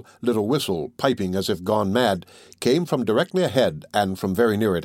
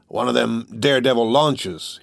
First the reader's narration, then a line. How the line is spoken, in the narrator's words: he said